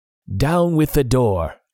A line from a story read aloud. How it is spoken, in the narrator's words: he shouted